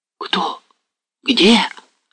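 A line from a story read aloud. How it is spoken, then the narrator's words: Confused whisper, villagers. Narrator (Russian): прошептали растерянно поселяне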